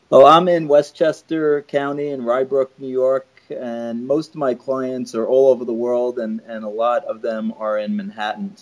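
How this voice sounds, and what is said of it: New York accent. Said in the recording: “I can tell from your accent. I have friends in New York, and they say coffee.”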